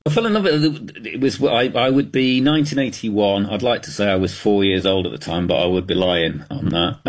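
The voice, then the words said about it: Thick British accent. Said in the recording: “you've obviously got a thick British accent”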